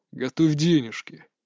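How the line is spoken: Quiet. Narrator (Russian): тихо сказал Вениамин

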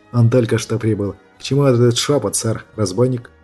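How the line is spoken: Half-voiced question. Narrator (Russian): спросил в полголоса

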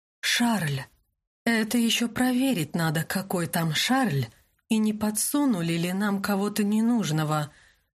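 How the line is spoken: Muffled, from another room. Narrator (Russian): Голос Винсана звучал глухо, он явно удрал из комнаты

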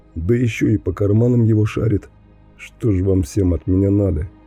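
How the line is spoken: Calm question. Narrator (Russian): спокойно спрашиваю я

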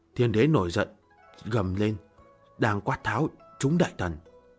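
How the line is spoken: Quiet. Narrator (Vietnamese): Nga Mi nhỏ giọng

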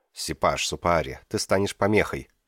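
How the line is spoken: Firm announcement. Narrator (Russian): твердым тоном объявила София

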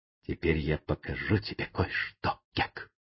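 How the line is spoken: Whisper. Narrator (Russian): Том прошептал

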